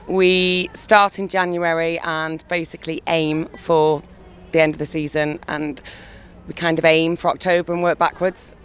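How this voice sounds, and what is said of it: Hoarse, fading voice. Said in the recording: “You have to excuse me because I'm losing my voice. ... hence losing the voice.”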